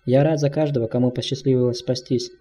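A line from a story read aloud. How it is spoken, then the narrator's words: Plain. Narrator (Russian): ответил глава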